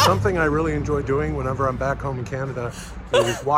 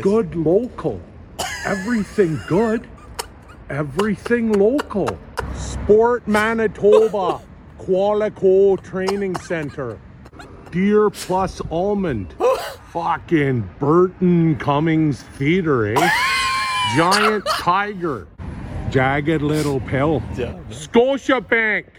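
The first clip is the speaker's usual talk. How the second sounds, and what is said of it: Exaggerated Canadian accent. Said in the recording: “walking around reading signs in my Canadian accent”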